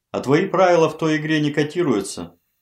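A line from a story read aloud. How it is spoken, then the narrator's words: Wry snort. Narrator (Russian): хмыкнул Игнатьев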